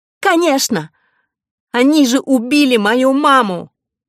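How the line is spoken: Sobbing girl. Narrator (Russian): Девочка зарыдала

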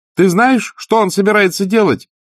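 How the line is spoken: Shouting. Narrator (Russian): крикнула Сьюзен в ответ

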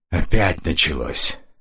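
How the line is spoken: Breathed out. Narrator (Russian): выдохнул Стефан

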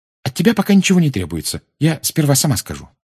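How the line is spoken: Hurried. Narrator (Russian): она торопливо добавила

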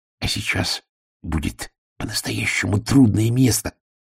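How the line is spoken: Whispered. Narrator (Russian): шепнул разговорчивый Шнобби

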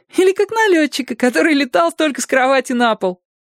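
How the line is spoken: Giggling. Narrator (Russian): хихикнул Зорко

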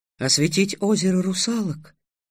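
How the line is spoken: Whisper. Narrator (Russian): шепотом сообщила Груя

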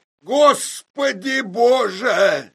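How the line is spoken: Shout. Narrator (Russian): закричал я

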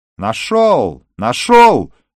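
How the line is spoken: Sudden shout. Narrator (Russian): вдруг закричал Гинзбург

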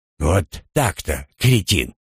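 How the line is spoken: Scornful snort. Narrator (Russian): хмыкнул Кахмидер

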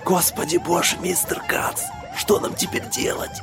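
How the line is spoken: Whisper. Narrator (Russian): прошептал помощник

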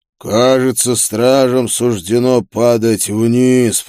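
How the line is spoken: Demon's growl. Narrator (Russian): прорычал демон

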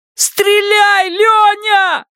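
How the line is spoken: Shouted. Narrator (Russian): закричал Пат

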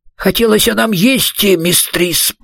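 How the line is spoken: Mumble. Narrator (Russian): пробормотал он

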